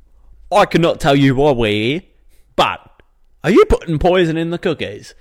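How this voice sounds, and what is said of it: Put-on British police officer accent. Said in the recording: “You got some good accents on you, man. I must say. ... I like your cop accent. Your British cop accent.”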